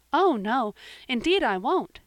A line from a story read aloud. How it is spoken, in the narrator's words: said Anne eagerly